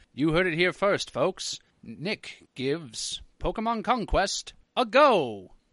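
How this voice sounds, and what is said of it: Mock radio announcer voice. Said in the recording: “doing this voice... just like you're on the radio”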